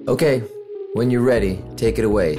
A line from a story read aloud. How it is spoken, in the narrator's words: he says